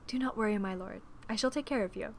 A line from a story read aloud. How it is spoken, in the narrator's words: Miss Bennet whispered to him